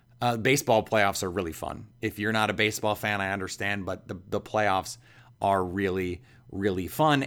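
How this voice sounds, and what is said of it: Slightly hoarse voice. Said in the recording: “If I sound a little bit hoarse, it's because I stayed up late Tuesday night”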